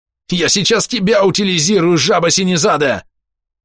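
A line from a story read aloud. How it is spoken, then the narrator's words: Roaring while pinned down. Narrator (Russian): взревел прижатый к полу Дуран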